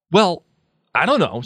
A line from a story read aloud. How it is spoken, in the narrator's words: said Harry rather angrily